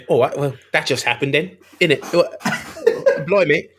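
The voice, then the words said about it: Put-on London accent. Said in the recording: “fantastic London accent”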